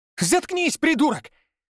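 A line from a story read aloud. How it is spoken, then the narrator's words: Shrill shriek. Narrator (Russian): Взвизгнул в ответ Павел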